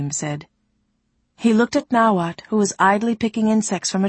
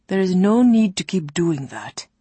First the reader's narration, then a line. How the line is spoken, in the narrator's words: Ulasim told her wearily